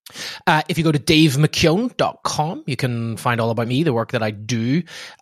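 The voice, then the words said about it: Irish accent. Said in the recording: “your spectacular Irish accent”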